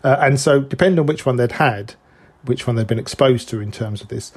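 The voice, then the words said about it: Speaks with a noticeable accent. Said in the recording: “That's my my accent.”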